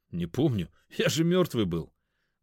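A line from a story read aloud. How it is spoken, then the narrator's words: Laughing. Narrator (Russian): засмеялся я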